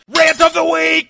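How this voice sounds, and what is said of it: Yelling. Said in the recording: “I don't know what we're yelling about!”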